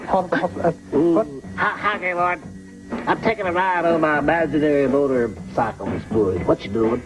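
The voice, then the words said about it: Strong Southern drawl. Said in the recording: “It sounded like you got like this guy from a truck stop. This guy from a truck stop in the Deep South ... he has a real strong Southern drawl.”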